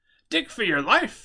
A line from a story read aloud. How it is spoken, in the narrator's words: AJ yelled